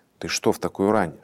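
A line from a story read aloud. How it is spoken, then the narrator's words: Mother's whisper. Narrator (Russian): шепнула мать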